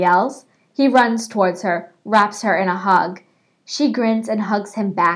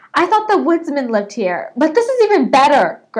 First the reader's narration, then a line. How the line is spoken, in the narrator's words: Greg exclaims